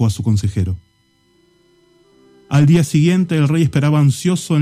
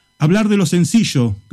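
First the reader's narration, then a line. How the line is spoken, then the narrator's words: Distant shout from behind. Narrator (Spanish): gritó una voz desde el fondo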